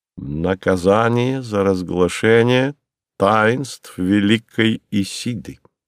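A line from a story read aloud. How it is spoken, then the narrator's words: Slow, measured. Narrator (Russian): сказал медленно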